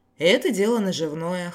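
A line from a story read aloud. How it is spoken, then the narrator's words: Snorted. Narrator (Russian): хмыкнул я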